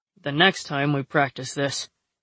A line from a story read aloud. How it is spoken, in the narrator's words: he growled